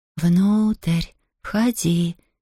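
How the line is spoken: Soft, muffled singsong. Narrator (Russian): мягко и приглушенно пропел голос

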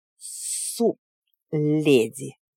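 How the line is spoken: Hiss. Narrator (Russian): зашипел он

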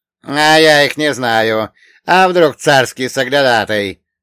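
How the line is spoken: Angry. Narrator (Russian): зло произнес

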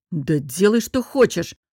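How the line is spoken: Snapping, irritated. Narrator (Russian): огрызнулся он

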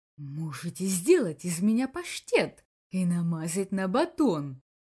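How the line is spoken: Hissed reply. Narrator (Russian): Также прошипел в ответ Бакс

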